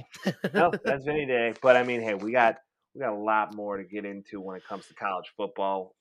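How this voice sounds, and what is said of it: Hoarse voice. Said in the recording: “My voice is hoarse,”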